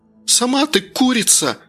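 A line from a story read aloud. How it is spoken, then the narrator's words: Girl's shriek. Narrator (Russian): взвизгнула девица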